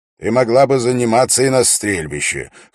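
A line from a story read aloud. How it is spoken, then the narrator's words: Snorting. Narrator (Russian): хмыкнул Дункан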